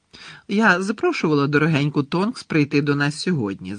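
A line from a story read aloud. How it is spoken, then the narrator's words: Declared. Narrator (Ukrainian): заявила місіс Візлі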